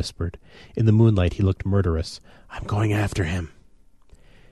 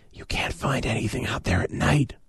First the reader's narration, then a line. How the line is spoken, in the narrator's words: I whispered